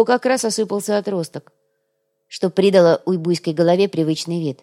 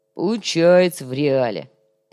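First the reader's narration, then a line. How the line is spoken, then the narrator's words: Drawn-out drawl. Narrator (Russian): протянул коряга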